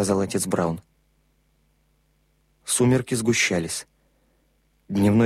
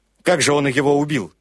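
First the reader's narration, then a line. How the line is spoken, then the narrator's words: Sharp retort. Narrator (Russian): резко бросил Крэг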